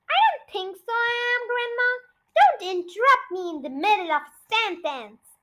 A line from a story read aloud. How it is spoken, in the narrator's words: she shouted